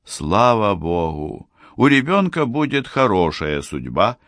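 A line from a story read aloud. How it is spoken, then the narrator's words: Relieved mother speaking. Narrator (Russian): облегченно вздохнувшая мать сказала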